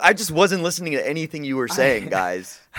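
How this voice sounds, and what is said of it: Imitates another person's voice. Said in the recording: “That was my impression of you”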